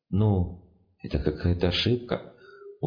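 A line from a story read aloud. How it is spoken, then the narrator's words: Gloomy drawl. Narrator (Russian): уныло тянул незнакомый голос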